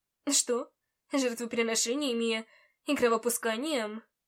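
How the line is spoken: Laughing. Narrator (Russian): Кас рассмеялся

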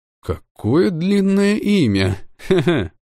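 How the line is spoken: Laughing. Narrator (Russian): хохотнул я

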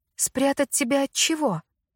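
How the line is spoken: Lowered to a whisper. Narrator (Russian): Сэдди Грейс понизила голос до шепота, и мне едва удалось разобрать ее слова в гуле разговоров

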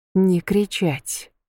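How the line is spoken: Quiet. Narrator (Russian): сказала тихо

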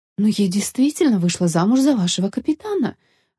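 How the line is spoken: Bewildered. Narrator (Russian): растерянно сказала Нелла

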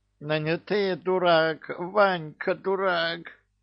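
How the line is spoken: Nasal whine, pinched nose. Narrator (Russian): загнусавил Кощей, так как вместе с кольцом в крепких пальцах капитана оказались его ноздри

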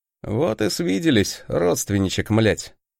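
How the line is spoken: Scoffing grunt. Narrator (Russian): хмыкнул

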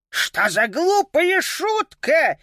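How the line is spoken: Roaring. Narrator (Russian): взревел тот

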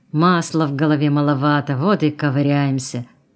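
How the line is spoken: Driver grumbling. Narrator (Russian): пробурчал водитель

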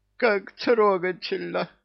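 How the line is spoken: Sobbing. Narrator (Russian): всхлипнул трус

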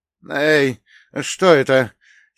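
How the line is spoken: Hoarse frightened shout, drowned out. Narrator (Russian): сипло крикнул Фолкнер, но его испуганный голос потонул в шуме волн

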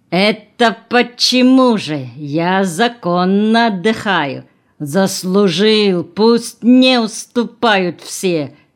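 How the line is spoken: Deep bass voice. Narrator (Russian): забасил экскаваторщик

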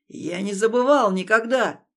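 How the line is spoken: Shouted. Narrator (Russian): крикнул я

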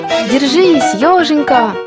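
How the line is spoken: Kind man's shout. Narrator (Russian): крикнул добрый художник

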